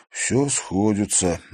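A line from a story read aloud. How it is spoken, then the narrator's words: Muffled, hollow. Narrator (Russian): глухо произнес Тимофей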